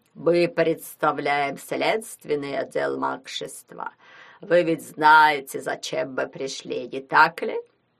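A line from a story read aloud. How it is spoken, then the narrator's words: Nasal droning voice. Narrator (Russian): В нос прогудел гнусавый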